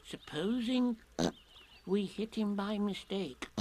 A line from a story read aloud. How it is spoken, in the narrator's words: said Piglet anxiously